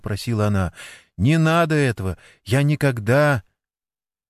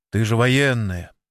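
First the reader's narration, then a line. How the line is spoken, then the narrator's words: Angry grumble. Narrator (Russian): злясь на себя, буркнул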